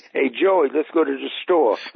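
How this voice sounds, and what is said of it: Put-on New York accent. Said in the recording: “Yeah, that's a New Yorker.”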